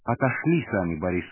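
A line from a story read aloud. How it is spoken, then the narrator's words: Very calm. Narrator (Russian): сказала она очень спокойно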